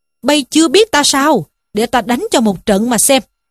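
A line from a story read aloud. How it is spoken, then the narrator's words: Furious shout. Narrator (Vietnamese): Trí Thâm cũng hầm hầm giận dữ quát lên rằng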